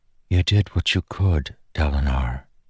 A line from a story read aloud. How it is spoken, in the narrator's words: she whispered